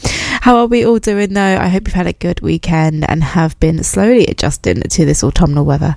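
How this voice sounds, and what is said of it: Slightly strained, sore-throat voice. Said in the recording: “I have a bit of a sore throat, so if I do kind of sound a bit strange”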